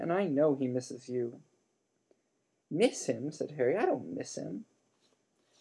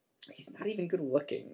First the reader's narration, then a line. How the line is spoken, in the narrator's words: she muttered angrily